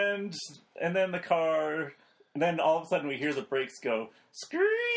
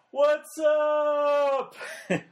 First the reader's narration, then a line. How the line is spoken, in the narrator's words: I yell out